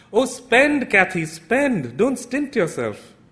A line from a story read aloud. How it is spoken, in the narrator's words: cried out to urge her on